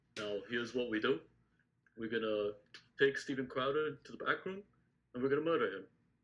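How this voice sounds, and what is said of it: Imitates another person's voice, mediocre. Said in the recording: “do your Bernie ... if we had to rank all the Bernie Sanders voices of all time, that would be like in the bottom half of it. That's not even that good of a Bernie”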